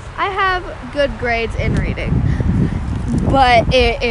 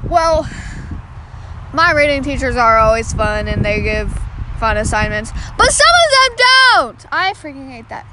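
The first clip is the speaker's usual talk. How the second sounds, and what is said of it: Yelling loudly. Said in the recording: “Sorry, I'm yelling. ... if you don't like how loud I am”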